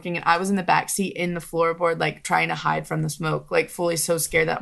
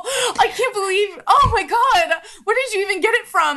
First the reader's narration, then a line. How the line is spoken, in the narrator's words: Like screaming at her, like so scared and more of like not judging them, but so scared that my mom would find out and like be so mad at me